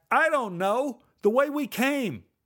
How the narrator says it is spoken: Neil shouted back

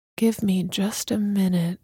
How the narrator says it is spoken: murmured

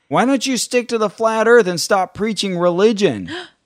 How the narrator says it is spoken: this woman started yelling out

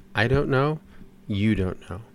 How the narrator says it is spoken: Very quietly, the doctor said

